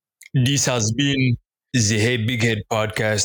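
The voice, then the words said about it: Put-on African-sounding accent. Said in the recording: “I was trying to do an accent... I was getting African warlord fresh off.”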